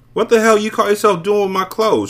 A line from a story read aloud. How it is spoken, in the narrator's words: she screamed